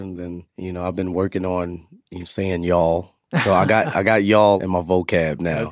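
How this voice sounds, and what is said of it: New York accent. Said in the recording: “You still got it. You still got the New York accent. ... It comes and goes.”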